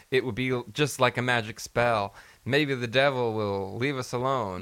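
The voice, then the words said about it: Put-on accent imitating another person. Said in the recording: “What's this voice that you started doing? ... Accent. ... this is my accent. New Gerson accent.”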